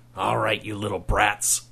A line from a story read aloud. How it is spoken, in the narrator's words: snarled Kelsey